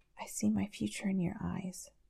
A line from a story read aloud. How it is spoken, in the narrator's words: he whispers nonsensically, because it's not what he'd planned to say, but it's so true